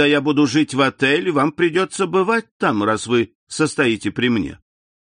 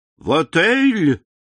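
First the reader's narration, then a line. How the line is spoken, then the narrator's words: Exclamation. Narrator (Russian): воскликнул Бертуччо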